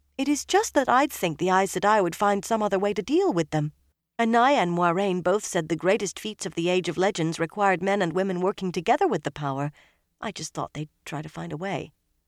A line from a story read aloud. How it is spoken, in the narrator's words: she quickly added